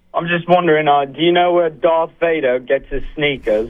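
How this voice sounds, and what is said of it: Put-on fake voice. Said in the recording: “fake voice”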